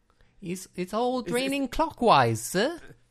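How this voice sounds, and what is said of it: Bad Australian accent, almost Scottish. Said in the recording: “we should continue doing Australian accents on this show ... It's Dickensian London, it's almost Scottish. What is it?”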